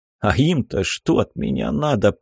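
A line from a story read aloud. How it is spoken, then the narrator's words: Groaning. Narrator (Russian): простонал я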